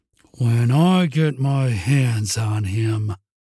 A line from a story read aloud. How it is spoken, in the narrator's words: Jesse began through gritted teeth